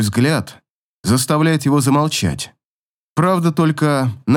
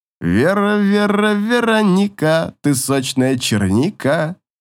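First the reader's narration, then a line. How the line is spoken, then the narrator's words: Sing-song exclamation. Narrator (Russian): Восклицает он нараспев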